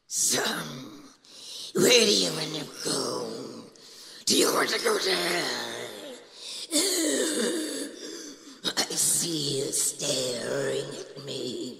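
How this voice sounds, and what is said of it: Gravelly demonic character voice. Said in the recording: “I'm doing demon voices”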